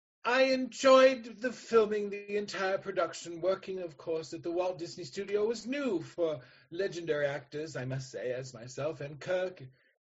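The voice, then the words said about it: Impression of Mr. Mason. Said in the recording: “Mr. Mason ... if I may give you my impression ... I can't do it. I can't do it.”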